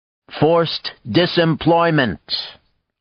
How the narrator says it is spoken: Art said loudly from the back

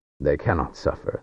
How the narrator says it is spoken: the summoner said

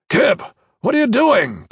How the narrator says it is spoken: Corvin Danavis shouted

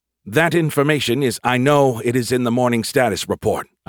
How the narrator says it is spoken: I snapped, embarrassed

